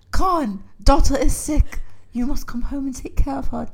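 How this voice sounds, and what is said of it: Put-on Chinese accent. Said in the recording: “in a fucking Chinese accent”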